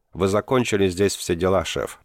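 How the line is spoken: Even tone. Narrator (Russian): проговорил он ровным тоном

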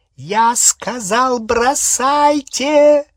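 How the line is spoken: Shrieked. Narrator (Russian): провизжала Беллатриса

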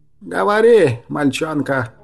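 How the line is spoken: Creaky voice. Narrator (Russian): проскрипел Сморгол

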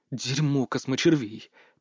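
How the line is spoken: Muttered. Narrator (Russian): пробормотал я

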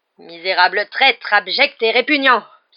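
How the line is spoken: Very loud exclamation. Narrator (French): s'exclama Hagrid d'une voix si forte que la moitié des clients interrompirent leur conversation

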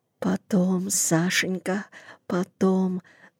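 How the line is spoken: Whisper. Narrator (Russian): зашептала Зина

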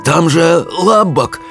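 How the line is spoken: Hoarse, faltering voice. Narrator (Russian): севшим голосом проговорил Питер

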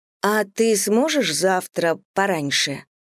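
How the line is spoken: Doubtful drawl. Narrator (Russian): сомнением в голосе протянула я

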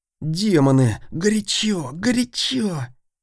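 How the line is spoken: Angry hiss. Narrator (Russian): Зло прошипел он

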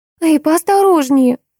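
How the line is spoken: Exclaiming. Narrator (Russian): воскликнула Биби

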